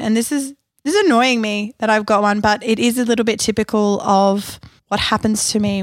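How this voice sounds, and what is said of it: Husky voice. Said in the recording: “my voice is a little bit husky ... I've been a little bit unwell”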